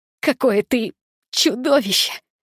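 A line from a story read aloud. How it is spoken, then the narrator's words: Hoarse gloating laugh. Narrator (Russian): Я хрипло и злорадно рассмеялась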